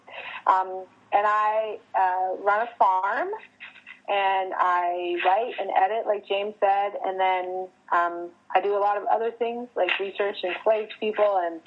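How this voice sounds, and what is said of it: Southern US accent. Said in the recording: “I have a southern one that'll come out the more I talk, you'll hear it.”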